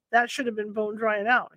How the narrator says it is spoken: said

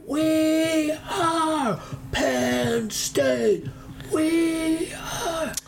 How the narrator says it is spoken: by the end of his cadence, he's screaming

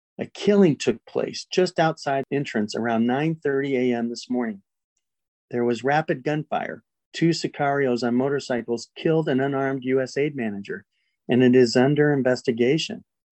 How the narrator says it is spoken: said the manager

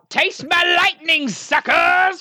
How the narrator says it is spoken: Can I shout

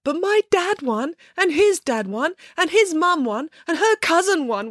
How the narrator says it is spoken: wailed Matilda

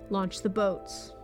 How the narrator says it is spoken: In a low voice, he gave the order

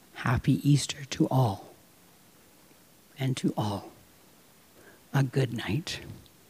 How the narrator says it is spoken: her whisper

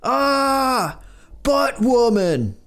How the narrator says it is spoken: The boys scream

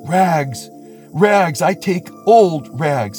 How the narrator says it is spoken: he cried, sobbing

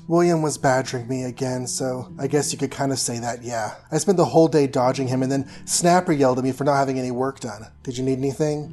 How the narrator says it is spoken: Kara sighed

